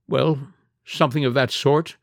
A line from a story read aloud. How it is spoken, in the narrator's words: Villon admitted with a quaver